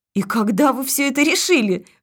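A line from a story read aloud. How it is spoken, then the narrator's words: Laughing. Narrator (Russian): засмеялась Александра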